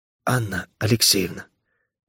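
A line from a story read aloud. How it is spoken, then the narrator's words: Hoarse whisper. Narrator (Russian): попытался он выговорить, но получился какой-то хриплый шепот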